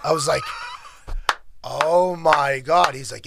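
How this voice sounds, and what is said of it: Usual voice. Nothing is said of it.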